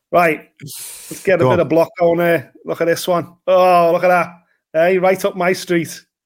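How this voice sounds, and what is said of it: Thick Scouse accent. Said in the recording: “that thick Scouse accent”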